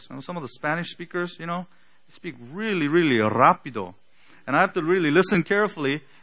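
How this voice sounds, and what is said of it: Slight non-native English accent. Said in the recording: “English is not my first language. As you can tell by a slight accent from time to time, a wrong accent on the wrong syllable”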